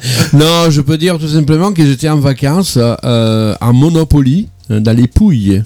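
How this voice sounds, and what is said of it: Italian accent, rolled r's. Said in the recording (French): “le charme italien avec ton accent un peu en roulant les airs comme ça”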